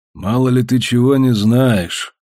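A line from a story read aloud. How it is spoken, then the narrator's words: Gloomy reply. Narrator (Russian): мрачно ответил полковник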